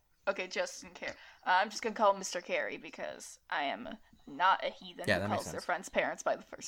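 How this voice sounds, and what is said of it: Usual voice. Nothing is said of it.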